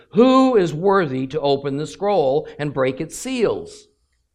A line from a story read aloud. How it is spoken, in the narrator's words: a mighty angel proclaiming in a loud voice